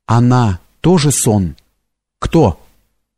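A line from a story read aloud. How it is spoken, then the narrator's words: Trembling question. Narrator (Russian): Лось спросил дрогнувшим голосом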